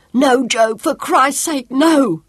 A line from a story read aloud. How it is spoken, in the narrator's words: For a moment he was paralysed, and then he screamed